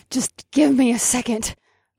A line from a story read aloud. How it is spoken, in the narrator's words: I said through gritted teeth